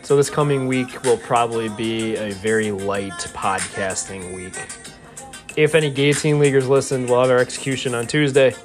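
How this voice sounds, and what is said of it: Tired voice. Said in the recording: “My voice is tired.”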